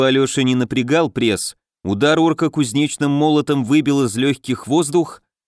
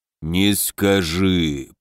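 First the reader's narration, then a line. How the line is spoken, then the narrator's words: Deep booming voice. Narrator (Russian): прогудел шаман, чей голос оказался даже ниже, чем у воина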